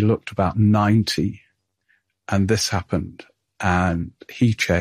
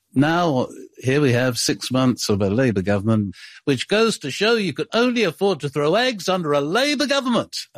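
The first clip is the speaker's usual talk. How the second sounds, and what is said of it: Harold Wilson impression. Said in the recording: “I can do it with the Harold Wilson impersonation”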